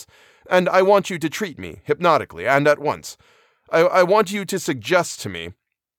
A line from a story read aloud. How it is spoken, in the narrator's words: his voice became very tense